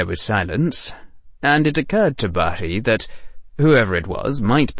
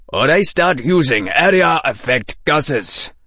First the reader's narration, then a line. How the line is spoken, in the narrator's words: said Bari, making his voice harder